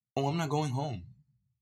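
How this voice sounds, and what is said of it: Imitating her mother's voice. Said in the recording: “In that exact voice, I'm gonna play it word for word how she reacted.”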